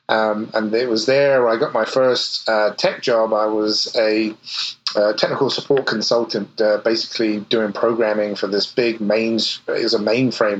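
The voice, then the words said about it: English accent. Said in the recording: “probably you can guess from the accent that I'm from a little further east, the other side of the pond. I grew up in England”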